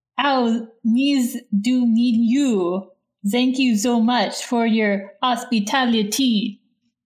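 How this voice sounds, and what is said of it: Put-on French accent. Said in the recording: “they speak with accents. They sound like this ... very clearly French to me ... it's very obviously a French accent.”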